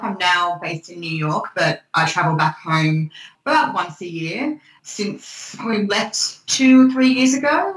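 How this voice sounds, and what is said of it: Australian accent. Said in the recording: “As you can probably tell from my accent, I am Australian. I was born and raised in Sydney.”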